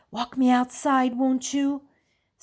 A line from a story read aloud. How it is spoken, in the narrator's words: whisper in Stephen's ear